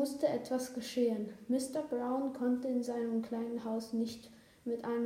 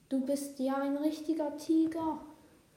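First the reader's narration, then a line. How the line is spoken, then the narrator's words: Calling out. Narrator (German): rief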